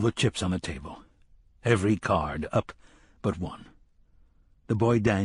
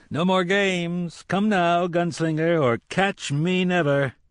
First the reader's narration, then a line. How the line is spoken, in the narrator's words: Booming, racketing